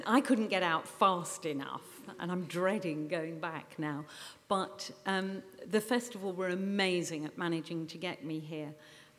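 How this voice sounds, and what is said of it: Noticeable non-local accent. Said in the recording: “As you can probably tell from my accent”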